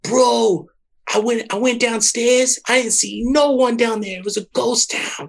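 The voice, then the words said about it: Imitates another person's voice. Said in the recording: “A great impersonation.”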